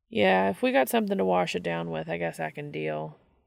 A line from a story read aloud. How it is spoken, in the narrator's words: Dean agreed wearily